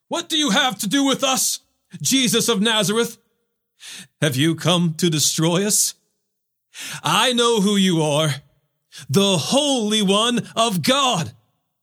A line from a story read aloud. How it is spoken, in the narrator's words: He cried out